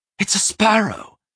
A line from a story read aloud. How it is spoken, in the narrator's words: Simon cried